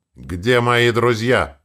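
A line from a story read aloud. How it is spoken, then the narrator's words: Growled. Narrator (Russian): рыкнул я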